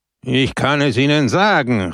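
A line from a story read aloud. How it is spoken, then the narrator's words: Calling out. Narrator (German): rief Peppone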